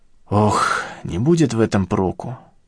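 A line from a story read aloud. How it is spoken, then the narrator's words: Resigned mutter. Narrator (Russian): сдаваясь, пробормотал я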